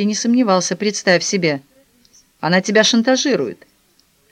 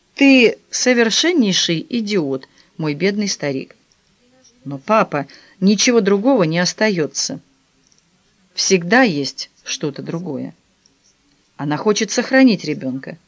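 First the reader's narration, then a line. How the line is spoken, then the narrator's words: Calm. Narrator (Russian): он спокойно сказал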